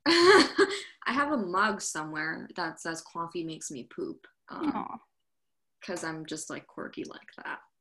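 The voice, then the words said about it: Soft New York accent. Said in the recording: “You have a spectacular accent... Very, very New York, but like soft.”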